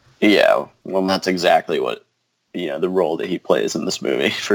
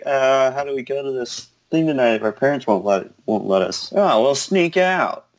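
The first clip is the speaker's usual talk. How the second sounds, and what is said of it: Imitates another person's voice. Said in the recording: “That was a good impression.”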